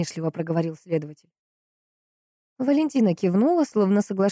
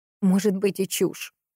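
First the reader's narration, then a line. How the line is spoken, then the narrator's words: Angry. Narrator (Russian): сердито проговорила женщина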